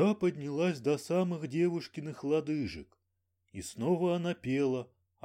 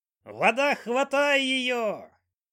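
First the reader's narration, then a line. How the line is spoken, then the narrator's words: Loud old woman's shriek. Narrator (Russian): бабка громко завизжала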